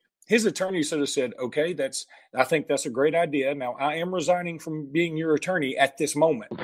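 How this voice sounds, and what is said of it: Usual voice. Nothing is said of it.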